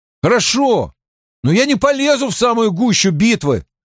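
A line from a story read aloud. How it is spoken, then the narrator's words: Shouting after someone. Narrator (Russian): крикнул Мэтт вслед девушкам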